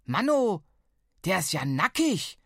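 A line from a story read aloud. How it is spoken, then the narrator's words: Surprised bellow. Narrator (German): brüllte, als sie die Skulptur zum ersten Mal sah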